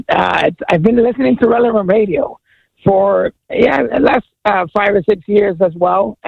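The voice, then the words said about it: Teary, tearful voice. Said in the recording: “I'm a little teary, ... Crying a little bit.”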